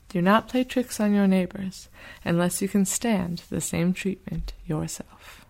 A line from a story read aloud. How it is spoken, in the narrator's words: the stork said calmly